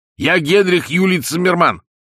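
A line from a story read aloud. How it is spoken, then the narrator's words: Confused shout. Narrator (Russian): он, путая, кричал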